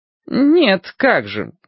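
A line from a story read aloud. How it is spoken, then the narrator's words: False, insincere voice. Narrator (Russian): фальшивым голосом сказал он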